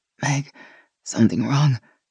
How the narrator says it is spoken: Gina managed between breaths

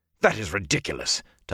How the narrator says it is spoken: Tom snapped

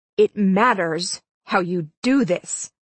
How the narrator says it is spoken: I said through clenched teeth

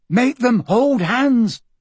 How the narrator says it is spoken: Michael shouted

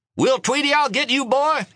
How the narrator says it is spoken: he yelled

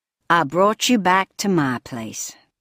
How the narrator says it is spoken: drawled the caretaker

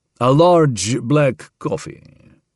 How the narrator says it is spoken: Harvey drawled

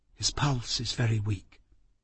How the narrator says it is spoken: Miss Kenton say softly behind me

